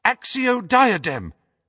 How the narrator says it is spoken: cried Hermione in desperation

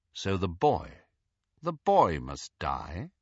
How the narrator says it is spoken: asked Snape, quite calmly

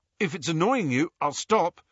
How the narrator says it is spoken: he told Hermione nervously

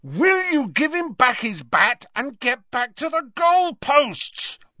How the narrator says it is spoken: roared Harry, pelting towards McLagan

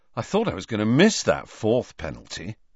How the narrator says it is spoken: Ron was saying happily

